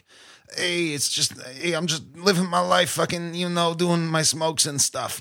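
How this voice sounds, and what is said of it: Put-on smoky Manhattan New York accent. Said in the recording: “with like this crazy accent ... she sounds like this the whole time ... She sounds like every Jewish lady from Manhattan ... That smokes like two packs a day”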